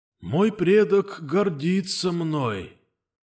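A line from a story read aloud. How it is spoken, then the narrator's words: Dying man's wheeze. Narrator (Russian): хрипел умирающий Влад Громов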